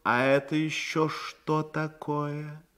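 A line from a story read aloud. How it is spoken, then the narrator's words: Weary reproachful lord asking. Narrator (Russian): Лорд устало с упреком спросил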